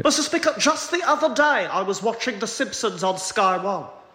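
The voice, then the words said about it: Impression of Keir Starmer. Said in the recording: “that guy on TikTok who does impressions of Keir Starmer ... it's really funny ... there's a really good impression”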